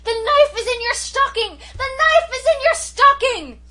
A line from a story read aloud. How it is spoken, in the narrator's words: shrieked at the top of my voice